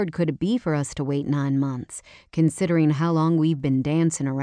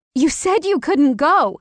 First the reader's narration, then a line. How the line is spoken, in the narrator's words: I shouted, the sound echoing off the tile floors